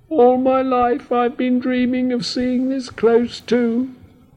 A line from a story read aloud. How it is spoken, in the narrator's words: added the squeak with a sigh